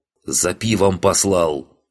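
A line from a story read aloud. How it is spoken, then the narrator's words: Blacksmith growling. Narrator (Russian): прорычал кузнец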